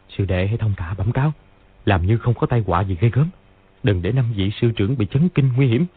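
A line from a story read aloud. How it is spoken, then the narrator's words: Soft whispered instruction. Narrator (Vietnamese): Lý Chí Tường ... dặn khẽ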